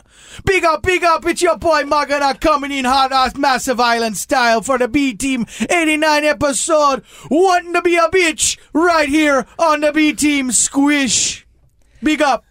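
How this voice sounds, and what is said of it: Put-on Jamaican patois accent. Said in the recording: “Ever since I saw Chet Hanks speak patois, that's what I want to do. ... doing that voice”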